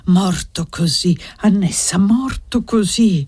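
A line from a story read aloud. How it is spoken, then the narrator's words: Praying, sighing murmur. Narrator (Italian): Pregava e sospirava e ogni tanto mormorava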